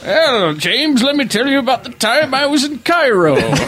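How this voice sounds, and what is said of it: Put-on accent that keeps shifting. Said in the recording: “why does your accent keep changing?”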